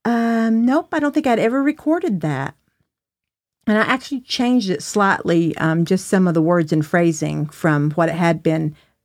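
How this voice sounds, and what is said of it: Southern American accent. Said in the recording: “you still got a Southern accent ... You do. You still do.”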